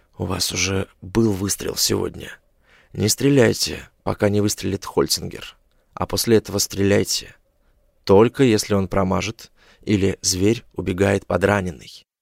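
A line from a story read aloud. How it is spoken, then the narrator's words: Whispered. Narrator (Russian): Я прошептал Джеймсу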